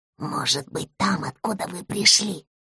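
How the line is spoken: Small dog whispering. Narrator (Russian): прошептала собачка

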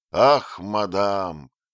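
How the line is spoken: Sad smiling objection. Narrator (Russian): возразил, печально улыбаясь, принц

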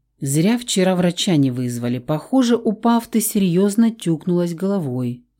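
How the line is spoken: Sighing. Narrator (Russian): вздохнул Давид

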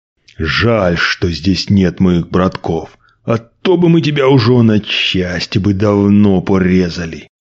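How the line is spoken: Angry hiss. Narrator (Russian): Зло прошипел

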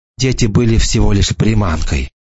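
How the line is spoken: Whisper. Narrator (Russian): прошептала она

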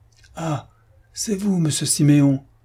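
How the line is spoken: Concierge exclaiming. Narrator (French): s'écria le concierge

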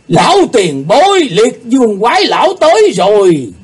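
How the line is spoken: Shouting in unison. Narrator (Vietnamese): Họ cùng lượt la lên

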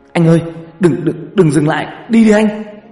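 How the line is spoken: Urgent hiss. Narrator (Vietnamese): Toàn rít lên

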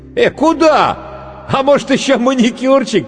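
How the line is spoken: Makeup artist shouting. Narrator (Russian): крикнул гример

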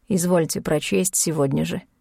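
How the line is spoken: Dry. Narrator (Russian): Сказал сухо

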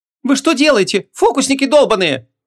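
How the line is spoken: Shrieking girl. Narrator (Russian): Взвизгнула девушка

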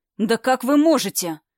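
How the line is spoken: Snapping back. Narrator (Russian): огрызнулся Василий

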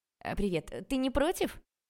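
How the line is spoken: Shouting. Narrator (Russian): Зачем-то прокричала она

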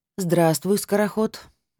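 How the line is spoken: Gloomy. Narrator (Russian): мрачно сказала

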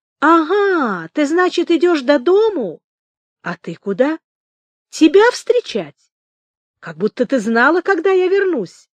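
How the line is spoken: Cheerful. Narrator (Russian): Федосья весело сказала

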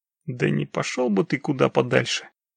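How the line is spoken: Muttering under breath. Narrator (Russian): пробурчал себе под нос Демидов

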